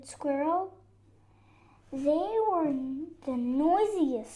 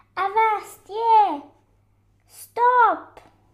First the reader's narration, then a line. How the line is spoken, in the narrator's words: he shouted